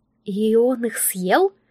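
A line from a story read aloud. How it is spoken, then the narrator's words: Trembling voice. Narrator (Russian): дрожащим голосом уточнила Анна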